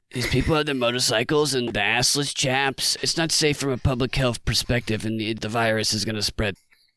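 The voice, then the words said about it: Anthony Fauci impression. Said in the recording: “Can you do a Fauci impression?”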